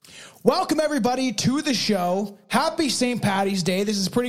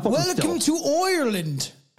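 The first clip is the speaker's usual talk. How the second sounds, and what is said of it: Put-on Irish accent. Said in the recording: “Tell me you're really not done with the accents, man.”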